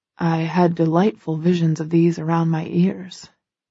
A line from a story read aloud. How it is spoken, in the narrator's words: he murmurs, wistfully